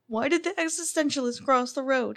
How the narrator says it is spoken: yelling

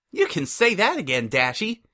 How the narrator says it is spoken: Pinkie chirped with her trademark optimism

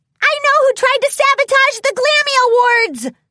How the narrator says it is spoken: Pinkie Pie shouted

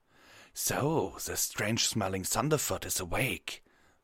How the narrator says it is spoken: the wolven rasped

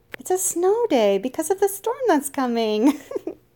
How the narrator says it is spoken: she giggled

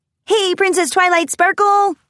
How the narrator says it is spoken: they shouted in response

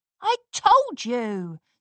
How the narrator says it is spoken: Scootaloo replied triumphantly

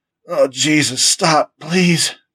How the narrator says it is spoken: gasped Frank

